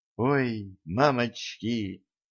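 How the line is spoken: Whisper. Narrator (Russian): прошептала Дашка

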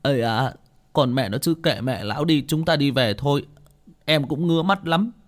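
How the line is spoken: Tearful whimpering. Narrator (Vietnamese): Bảy Ếch cũng mếu máo

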